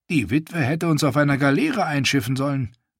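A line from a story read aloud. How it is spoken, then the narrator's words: Sour mutter. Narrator (German): murmelte er säuerlich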